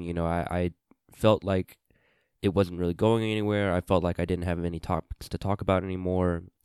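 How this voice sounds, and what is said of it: Sick, low-energy voice. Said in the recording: “you can hear it in my voice. I'm a little under the weather ... sneezing a lot, coughing a lot ... running low on energy”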